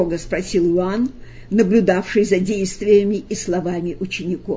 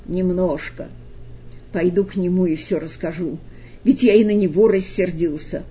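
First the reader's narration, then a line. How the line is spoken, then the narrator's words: Gloomy. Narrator (Russian): мрачно сказал Петр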